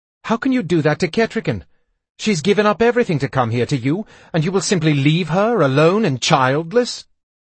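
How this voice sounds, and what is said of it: Accusing tone. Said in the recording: “My voice was filled with accusation.”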